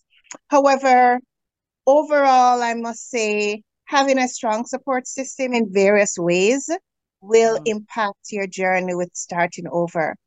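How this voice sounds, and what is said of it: Caribbean accent. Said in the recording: “you talk, it's like I feel like I'm in the Caribbean. So I'm relaxed when you talk.”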